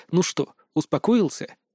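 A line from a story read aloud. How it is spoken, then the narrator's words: Quiet. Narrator (Russian): тихо сказал я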